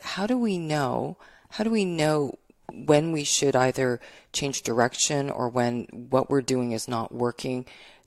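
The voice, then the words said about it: Sick, deep radio-like voice. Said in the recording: “you have an awesome radio voice. ... I'm sick. ... now you got a voice for radio”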